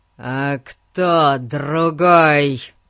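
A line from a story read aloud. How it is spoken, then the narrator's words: Sudden ferocious roar. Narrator (Russian): Взревел он вдруг таким свирепым голосом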